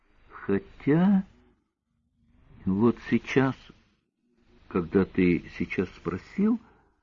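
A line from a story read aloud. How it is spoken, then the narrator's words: Quiet. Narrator (Russian): сказала тихо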